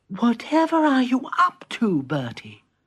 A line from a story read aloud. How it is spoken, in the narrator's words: said Peter sleepily